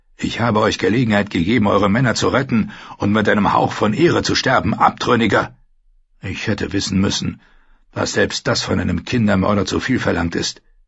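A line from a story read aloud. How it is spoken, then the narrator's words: Furious knight shouting. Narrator (German): rief der Ritter mit vor Wut gerötetem Gesicht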